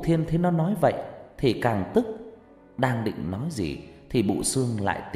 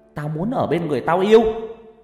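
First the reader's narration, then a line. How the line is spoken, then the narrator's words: Shrill voice. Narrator (Vietnamese): nó nói bằng cái giọng the thé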